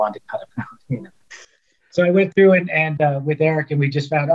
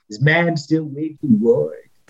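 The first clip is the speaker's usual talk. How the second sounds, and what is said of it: Imitates another person's voice. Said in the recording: “my poor man's impersonation of Robert Stack and Charlton Heston... that's a bad impersonation”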